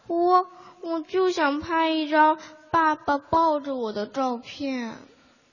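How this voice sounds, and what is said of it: Shy, quiet child's voice. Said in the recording (Chinese): “害羞的转过头，小声说道”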